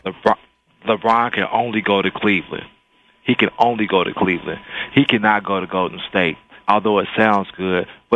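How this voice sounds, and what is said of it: Radio announcer voice. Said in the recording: “I hear your radio voice, man. Very nice. ... I had to bring it tonight”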